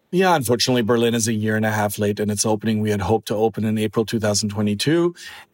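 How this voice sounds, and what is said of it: German accent. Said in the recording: “If you can't tell by the accent, I am German.”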